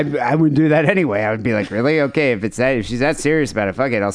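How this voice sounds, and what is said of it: Usual voice. Nothing is said of it.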